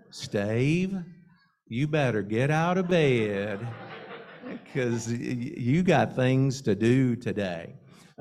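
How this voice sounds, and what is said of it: Female Southern accent. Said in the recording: “it sounded just like my mother ... this female Southern accent”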